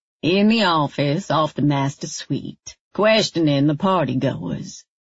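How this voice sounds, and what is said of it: Strong Texas accent, calm soothing tone. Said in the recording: “his Texas accent stronger than usual, deliberately calming, soothing.”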